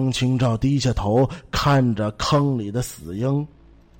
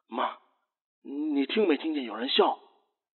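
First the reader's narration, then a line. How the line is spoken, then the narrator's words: Quiet. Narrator (Chinese): 张清照小声的说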